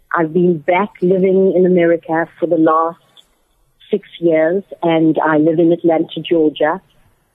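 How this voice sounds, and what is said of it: South African accent. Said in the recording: “I'm originally from South Africa, as some of you may have gathered by my accent.”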